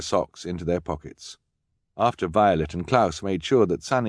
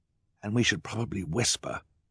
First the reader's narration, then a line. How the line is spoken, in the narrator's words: Klaus whispered